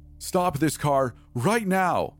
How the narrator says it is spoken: She screamed

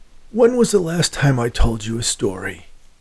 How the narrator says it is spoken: asked in a hoarse voice

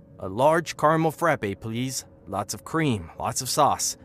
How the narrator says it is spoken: he said, his voice cheerful despite the cold

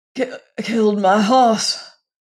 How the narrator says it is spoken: he panted

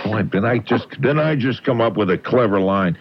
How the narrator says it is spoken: they chuckle

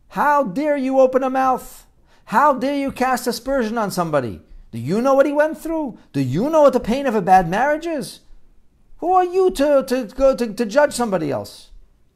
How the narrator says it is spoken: he began to yell at this malach

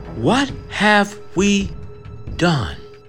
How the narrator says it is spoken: Emily whispers to herself, terrified

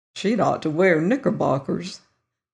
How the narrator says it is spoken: muttered the Virginian

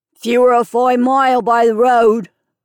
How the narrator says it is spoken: turned a straw in his mouth and grunted

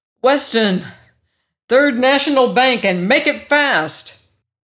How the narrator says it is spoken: yelled

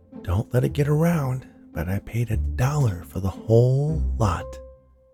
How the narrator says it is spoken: Gary whispered

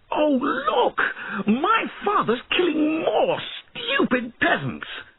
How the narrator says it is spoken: he suddenly shouted

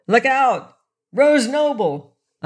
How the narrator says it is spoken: yelled

